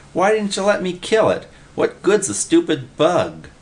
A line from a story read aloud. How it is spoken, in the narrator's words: Willie whined